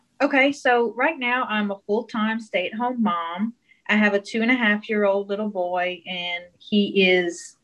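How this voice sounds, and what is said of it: Mild South Louisiana Cajun accent. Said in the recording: “her accent that is kind of South Louisiana, kind of Cajun country... I don't think of myself as having a really thick accent... I've always loved that accent”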